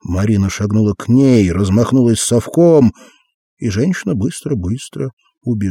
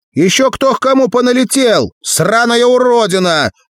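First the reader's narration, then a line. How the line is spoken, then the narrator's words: Triumphant shout. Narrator (Russian): победно крикнула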